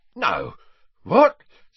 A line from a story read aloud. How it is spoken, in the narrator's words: spluttered Mundungus, who was turning slowly purple